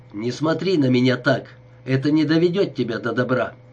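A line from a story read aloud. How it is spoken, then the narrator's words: Sharp, curt. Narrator (Russian): Она бросила резко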